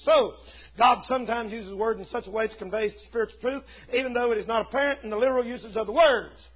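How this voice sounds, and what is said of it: Very fast speech. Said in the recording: “I'm talking too fast”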